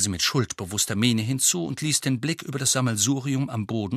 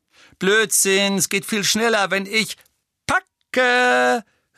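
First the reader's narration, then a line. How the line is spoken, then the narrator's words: Calling out. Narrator (German): rief Tonks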